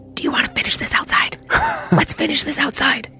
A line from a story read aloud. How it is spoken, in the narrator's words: kind of whisper shouted